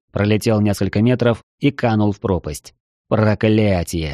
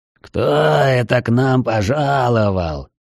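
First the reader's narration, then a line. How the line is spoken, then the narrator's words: Hoarse, disgusted surprise. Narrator (Russian): В сиплом голосе отчетливо слышится брезгливое удивление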